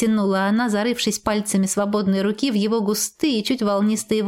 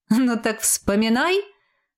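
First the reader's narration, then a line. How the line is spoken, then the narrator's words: Laughing. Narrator (Russian): рассмеялся он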